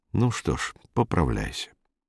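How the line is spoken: Sighing. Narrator (Russian): Белла вздохнул и сказал

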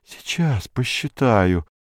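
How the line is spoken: Muttering. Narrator (Russian): бормотал он

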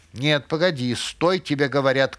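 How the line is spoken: Shout. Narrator (Russian): крикнула она

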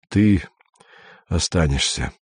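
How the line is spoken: Tired. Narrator (Russian): сказал Андрей устало

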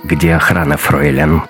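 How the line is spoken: Icy cold voice. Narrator (Russian): ледяным голосом спросил Раттенхубер

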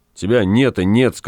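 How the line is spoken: Angry. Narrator (Russian): сказал он, сердито

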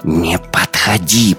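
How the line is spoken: Girl's hiss. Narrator (Russian): прошипела девчонка

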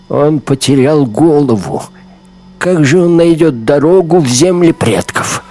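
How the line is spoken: Young woman, loud cry. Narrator (Russian): Невысокая русая девушка громко вскрикнула

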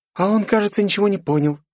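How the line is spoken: Cheerful laughing. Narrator (Russian): весело хохочет Полина

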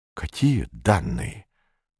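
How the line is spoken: Whisper. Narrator (Russian): прошептал Малянов

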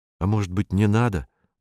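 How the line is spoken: Timid suggestion. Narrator (Russian): робко предложил Вадим

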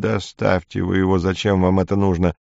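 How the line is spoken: Weak, forced calm. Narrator (Russian): Я собрал остатки своих слабых сил и заставил себя говорить спокойно, потому что понимал, что речь идет о моей жизни

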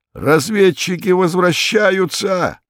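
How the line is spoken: Joyful yell. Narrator (Russian): Иван Иванович радостно заорал

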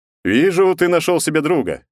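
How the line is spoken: Skeptical snort. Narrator (Russian): скептически хмыкнул он

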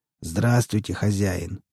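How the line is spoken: Hoarse rasp. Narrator (Russian): прохрипел он

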